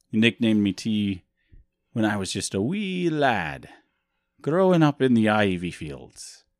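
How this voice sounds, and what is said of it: Bad put-on Scottish or Irish accent. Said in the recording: “a bad Scottish accent or Irish accent”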